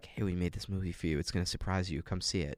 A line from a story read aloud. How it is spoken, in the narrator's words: it was just whispering to me